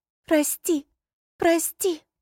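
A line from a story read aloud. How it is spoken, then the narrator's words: Sobbing repetition. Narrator (Russian): она начала просто всхлипывая повторять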